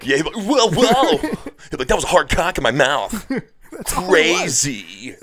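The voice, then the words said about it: Imitates another person's voice. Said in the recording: “worst Dan Cook impersonation ... It was like a pretty good one.”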